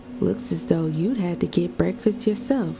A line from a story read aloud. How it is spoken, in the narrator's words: observed brightly